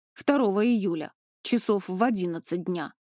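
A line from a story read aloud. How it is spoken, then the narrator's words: Plain. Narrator (Russian): ответила мама Саши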